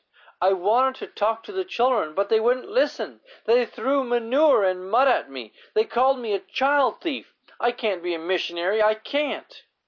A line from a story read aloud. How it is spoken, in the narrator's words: Trembling, Gladys cried